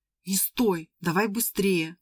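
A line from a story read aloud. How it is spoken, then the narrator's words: Hoarse. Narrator (Russian): сказал он хрипло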